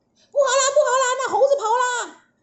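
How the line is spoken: Panicked clamoring shouts. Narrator (Chinese): 天兵天将大呼小叫，乱成一团

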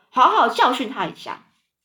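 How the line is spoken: Loud voice. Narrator (Chinese): 史胖基姨妈高声说

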